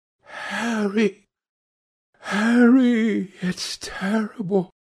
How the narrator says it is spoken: cried the lad

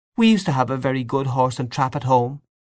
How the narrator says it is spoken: said Aunt Julia sadly

